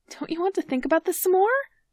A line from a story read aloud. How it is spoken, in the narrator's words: Sid says, his voice sounding strangled